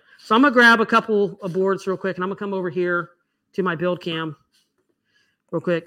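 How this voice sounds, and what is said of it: Talking very fast. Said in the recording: “I just don't know why I'm talking so fast”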